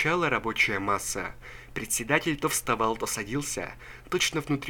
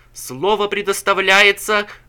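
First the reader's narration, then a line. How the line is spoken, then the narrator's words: Shouting. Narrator (Russian): кричал он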